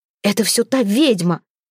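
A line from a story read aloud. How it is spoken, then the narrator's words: Vexed exclamation. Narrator (Russian): воскликнул он в досаде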